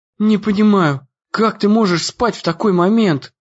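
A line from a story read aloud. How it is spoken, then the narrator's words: Through gritted teeth. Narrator (Russian): Сквозь зубы процедила она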